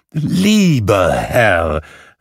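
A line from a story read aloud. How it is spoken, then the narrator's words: Calling out. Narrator (German): rief Scrooge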